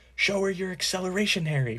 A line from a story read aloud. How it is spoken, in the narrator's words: Fred yelled as he whooshed past